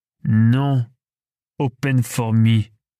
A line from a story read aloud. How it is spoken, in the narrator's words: he growled